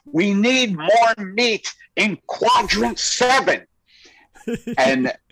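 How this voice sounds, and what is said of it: Child character voice over walkie-talkie. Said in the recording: “this is my impression of kids in 10 years. They'll be living underground in a network of sewer systems on a walkie-talkie going”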